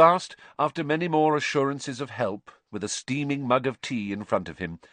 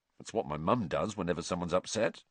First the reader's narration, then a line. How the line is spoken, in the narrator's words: Ron muttered